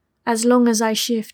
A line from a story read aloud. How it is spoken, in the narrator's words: replied